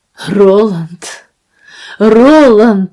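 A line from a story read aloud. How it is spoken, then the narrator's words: Voice breaking with sobs. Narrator (Russian): сказал он срывающимся от рыданий голосом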